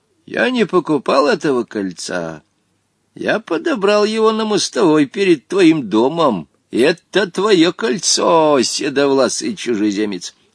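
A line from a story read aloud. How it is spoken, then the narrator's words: Calm. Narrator (Russian): Он спокойно сказал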